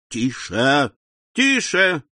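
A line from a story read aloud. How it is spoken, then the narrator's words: Shouts from audience. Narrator (Russian): крикнули в публике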